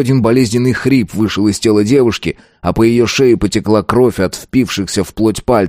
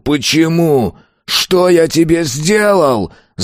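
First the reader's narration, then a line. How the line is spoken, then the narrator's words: Full-lunged yell. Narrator (Russian): Заорал он, едва не надорвав легкие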